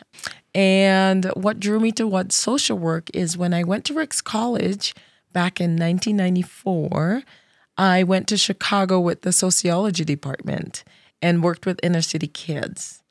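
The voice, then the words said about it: Trinidadian Caribbean accent. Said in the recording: “I grew up in Trinidad in the Caribbean, so you'll probably hear some of my accent because it comes out when I start speaking and I don't have to concentrate as much”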